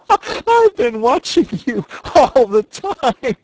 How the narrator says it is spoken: she gasped

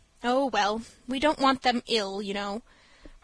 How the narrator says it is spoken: replied Mrs

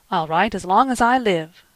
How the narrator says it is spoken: cried the boy impetuously

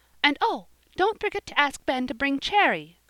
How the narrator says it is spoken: cried Polly, the last minute as they were driving off

